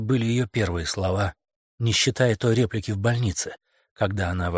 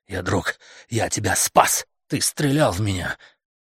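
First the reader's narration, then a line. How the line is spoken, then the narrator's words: Woman's growl. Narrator (Russian): прорычала женщина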